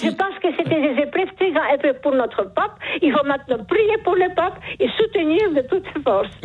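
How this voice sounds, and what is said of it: Charming regional accent. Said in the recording (French): “Vous avez un charmant accent ... ce joli accent”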